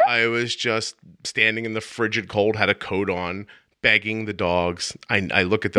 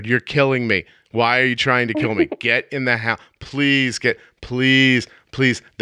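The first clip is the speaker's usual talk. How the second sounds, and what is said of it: Yelling, pleading voice. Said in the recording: “Now I'm yelling in my backyard.”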